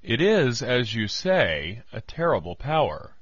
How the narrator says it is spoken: answered gravely

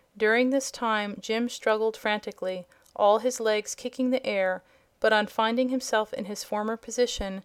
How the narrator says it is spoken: the horse said in a relieved tone of voice

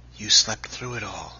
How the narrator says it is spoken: he half whispered

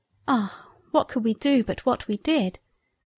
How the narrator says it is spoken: We sighed

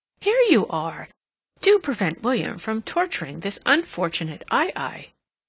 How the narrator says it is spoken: She saw Catherine and exclaimed

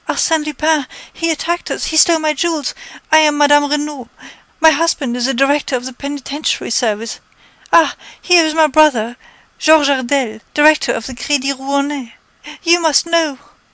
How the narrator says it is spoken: Panting for breath, the lady exclaimed

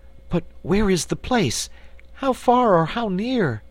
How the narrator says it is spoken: asked Cake anxiously

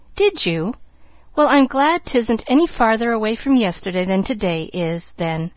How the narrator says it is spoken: laughed Pollyanna

